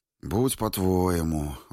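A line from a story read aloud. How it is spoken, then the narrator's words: Sigh. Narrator (Russian): вздохнул он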